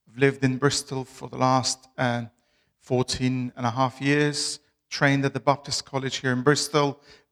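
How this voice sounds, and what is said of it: Albanian accent in English. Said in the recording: “where my accent is from ... I'm originally from Albania.”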